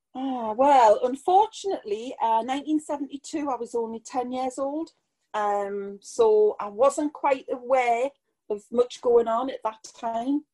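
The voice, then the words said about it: Geordie accent. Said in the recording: “I hope everybody can understand the Geordie accent.”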